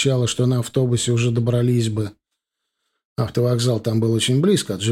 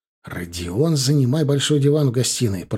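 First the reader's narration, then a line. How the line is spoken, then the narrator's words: Whisper. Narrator (Russian): прошептал я ему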